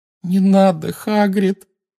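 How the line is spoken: Moaning. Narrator (Russian): простонала Гермиона

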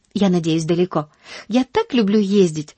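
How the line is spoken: Sighing. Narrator (Russian): вздохнула Полианна

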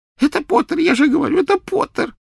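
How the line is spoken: Sobbing. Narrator (Russian): всхлипывал Ксенофилиус

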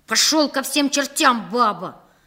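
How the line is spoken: Eldest barking sharply. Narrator (Russian): прикрикнул на него старший из нашей маленькой армии

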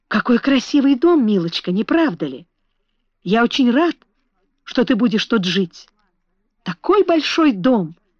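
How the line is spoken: Exclaimed. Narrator (Russian): воскликнул он

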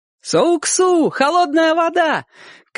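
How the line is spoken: Boy shouting. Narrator (Russian): кричал мальчишка

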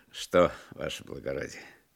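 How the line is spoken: Laughing speech. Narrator (Russian): сказал, смеясь, Пугачев

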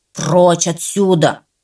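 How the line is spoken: Growling. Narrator (Russian): рычал он

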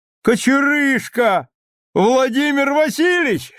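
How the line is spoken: Shouting. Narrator (Russian): крикнул Вася Воронов

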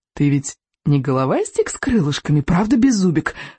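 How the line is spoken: Coaxing. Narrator (Russian): вкрадчиво сказал Икинг

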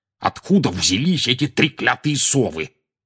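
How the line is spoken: Growled. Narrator (Russian): прорычал он

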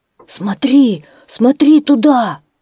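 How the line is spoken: Excited exclamation. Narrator (Russian): волк с волнением воскликнул

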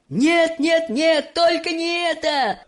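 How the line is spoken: Shouted. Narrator (Russian): закричал мистер Вонка

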